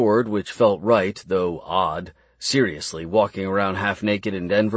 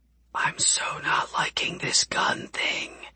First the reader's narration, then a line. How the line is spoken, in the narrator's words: Tessa whispered